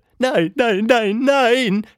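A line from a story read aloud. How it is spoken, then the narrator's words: Calling out. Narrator (German): rief sie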